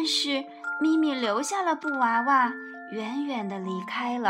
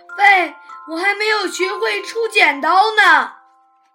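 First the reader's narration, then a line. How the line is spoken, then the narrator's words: Loud shouting while chasing. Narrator (Chinese): 大猩猩立刻追着车子大声地喊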